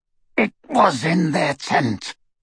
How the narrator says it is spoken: rasped Greyback

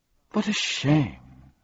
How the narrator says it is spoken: sighed the dodecahedron

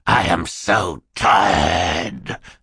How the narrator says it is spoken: Stefano snarled

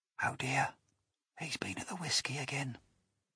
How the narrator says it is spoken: whispered the second officer

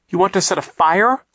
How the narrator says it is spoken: Klaus cried

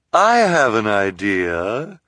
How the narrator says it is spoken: Esme said suddenly in a false, sweet voice

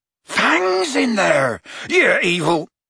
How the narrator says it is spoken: Hagrid bellowed

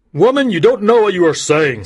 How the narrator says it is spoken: said the judge loudly

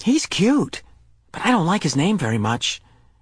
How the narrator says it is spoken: She turned and whispered to them

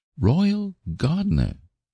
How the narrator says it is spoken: she exclaimed

